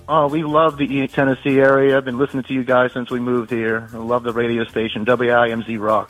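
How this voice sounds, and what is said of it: New Orleans accent. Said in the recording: “I'm a recent transplant here from New Orleans, Louisiana. ... I like that accent.”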